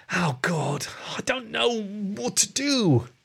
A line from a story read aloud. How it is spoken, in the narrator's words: the rat moaned